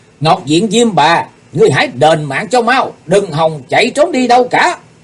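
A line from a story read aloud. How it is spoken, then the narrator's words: Loud shout. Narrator (Vietnamese): Chí Tôn hét lớn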